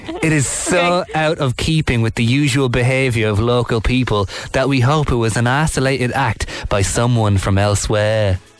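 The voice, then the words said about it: Put-on British accent, wandering between regions. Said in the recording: “I'm aware my accent is absolutely meandering through the UK here”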